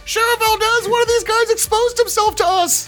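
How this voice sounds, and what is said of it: Shouting. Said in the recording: “I'm shouting”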